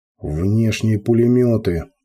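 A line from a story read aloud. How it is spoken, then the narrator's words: Growled command. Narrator (Russian): прорычал Кортес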